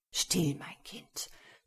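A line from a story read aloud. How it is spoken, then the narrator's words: Whispered. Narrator (German): flüsterte der Herzog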